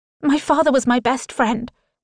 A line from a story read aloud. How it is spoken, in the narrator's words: I blurt out